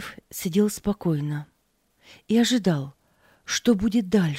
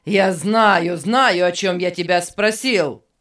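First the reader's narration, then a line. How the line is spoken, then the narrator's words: Angry shout. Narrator (Russian): сердито кричал Беннет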